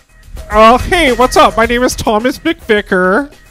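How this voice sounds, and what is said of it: Impression of a white guy voice. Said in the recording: “my impression of a white guy”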